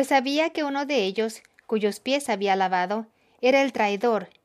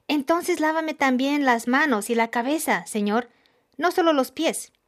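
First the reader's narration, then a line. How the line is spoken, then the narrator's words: Exclaiming. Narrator (Spanish): Y Pedro exclamó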